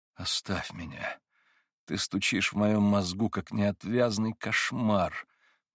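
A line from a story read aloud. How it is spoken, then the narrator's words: Pained, helpless moan. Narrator (Russian): болезненно простонал Иван в бессилии пред своим видением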